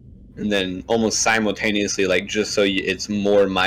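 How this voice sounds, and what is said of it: Usual voice. Nothing is said of it.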